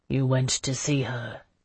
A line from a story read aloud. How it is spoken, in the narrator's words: he said in a low voice behind me